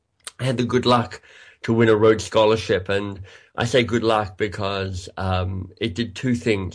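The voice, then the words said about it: Australian accent, slightly congested voice. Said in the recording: “I'm Australian by birth. You might be able to hear that in my accent, although I've got a bit of a cold today”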